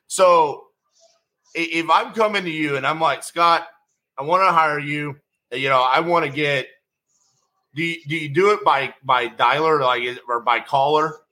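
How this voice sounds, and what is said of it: Alabama-like Southern accent. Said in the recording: “those people listening in Alabama ... your accent ... a guy who has a very similar accent than you.”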